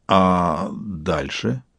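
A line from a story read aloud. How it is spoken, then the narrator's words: Slightly confused question. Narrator (Russian): Интагар самую чуточку растерянно вопросил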